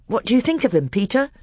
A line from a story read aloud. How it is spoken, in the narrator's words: Edmund asked anxiously